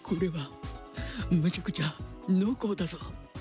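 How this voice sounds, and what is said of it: Poor imitation of another person's voice. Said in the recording (Japanese): “今のあの阿部寛さんの真似ですよ。全然似てないって。...似てないモノマネすぎたモノマネ”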